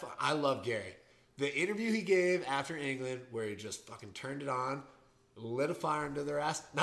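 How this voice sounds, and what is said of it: Usual voice. Nothing is said of it.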